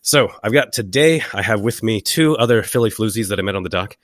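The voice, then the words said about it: Hoarse, raspy voice from a cold. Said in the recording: “as you can probably tell from the sound of my voice, I have a cold ... now I talk like your grandmother who's been smoking too much”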